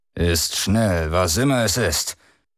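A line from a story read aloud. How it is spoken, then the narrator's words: Growl through clenched jaws. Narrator (German): knurrte der Kapitän mit zusammengepressten Kiefern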